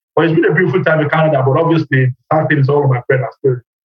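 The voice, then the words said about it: Australian accent. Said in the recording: “I never knew that I had an Australian accent ... folks come to my work and say, is that British? I'm like, no, it's Australian.”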